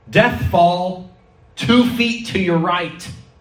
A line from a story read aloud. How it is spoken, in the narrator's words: teammates who would shout back to him